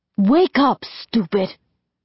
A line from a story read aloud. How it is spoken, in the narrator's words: he snaps